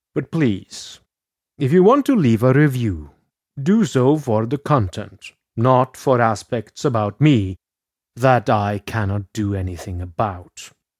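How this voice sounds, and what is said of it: Unusual Norwegian-Scottish accent. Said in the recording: “I supposedly sound like either Count Chocula or the Count from Sesame Street ... if I could speak in a level standard American accent, I would. But I am not American. I am a Norwegian who studied in Scotland, so my accent is a bit unusual”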